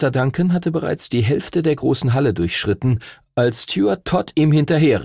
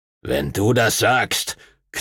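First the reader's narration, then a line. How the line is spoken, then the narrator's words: Growl. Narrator (German): knurrte Master Duncan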